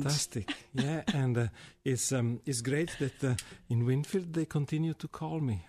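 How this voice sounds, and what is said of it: Strange foreign accent, possibly Italian. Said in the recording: “Strange accent. ... A strange accent. What do you think he's from? Italy? Yeah, maybe so.”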